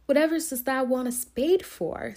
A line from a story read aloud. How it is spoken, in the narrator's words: said Martha, laughing